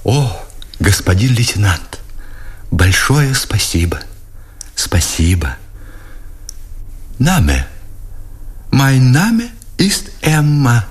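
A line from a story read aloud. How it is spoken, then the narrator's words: Softly laughing, affectionately sly. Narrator (Russian): говорила она, тихо смеясь, допрашивала с ласковым, пытливым лукавством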